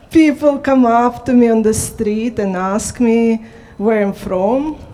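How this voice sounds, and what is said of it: Noticeable non-native English accent. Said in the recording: “You all hear my accent.”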